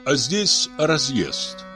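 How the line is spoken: Plain. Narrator (Russian): ответили

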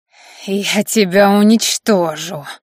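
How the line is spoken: Growl, suddenly weakened. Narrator (Russian): рыкнул вмиг потерявший мощную подпитку бок

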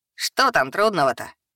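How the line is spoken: Impatient snort. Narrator (Russian): хмыкнул нетерпеливый Картон

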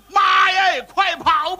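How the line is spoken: Shouting. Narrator (Chinese): 大喊了一声

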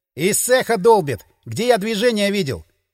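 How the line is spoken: Shout. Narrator (Russian): крикнул Дмитрий

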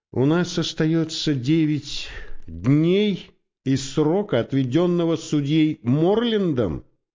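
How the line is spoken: Plain question. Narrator (Russian): спросил Коуди

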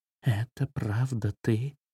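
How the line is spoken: Whispered. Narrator (Russian): прошептала она

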